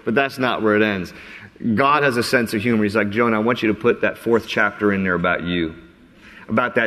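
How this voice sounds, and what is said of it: Usual voice. Nothing is said of it.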